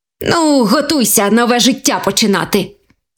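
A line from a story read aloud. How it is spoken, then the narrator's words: Happy exclaim. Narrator (Ukrainian): Вигукнув щасливий заєць до своєї сім'ї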